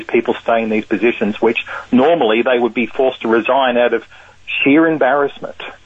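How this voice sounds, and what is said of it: Australian accent. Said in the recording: “I can't help but notice your accent... the accent's from Australia... You've lost a little of it... No, I've never lost it”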